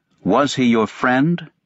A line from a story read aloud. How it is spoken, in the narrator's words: he asked